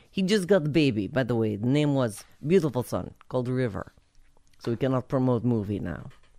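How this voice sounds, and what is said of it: Put-on Russian accent. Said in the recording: “I'm whipping out my Russian accent.”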